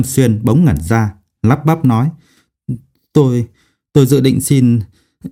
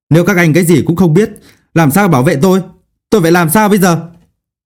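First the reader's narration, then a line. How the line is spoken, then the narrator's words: Agitated, loud, demanding. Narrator (Vietnamese): Nhâm Xuyên có chút không khống chế được, lớn tiếng truy hỏi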